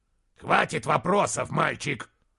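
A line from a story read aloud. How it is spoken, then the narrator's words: Growling. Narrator (Russian): прорычал Моргенес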